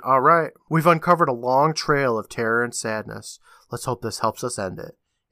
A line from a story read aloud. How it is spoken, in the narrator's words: he sighs, saying